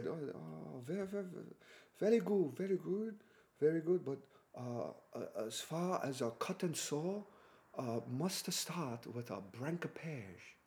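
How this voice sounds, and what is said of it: Imitated foreign accent. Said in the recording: “I'm just doing the accent”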